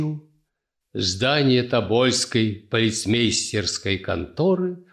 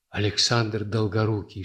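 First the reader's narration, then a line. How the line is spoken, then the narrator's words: Whispered. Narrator (Russian): шепнул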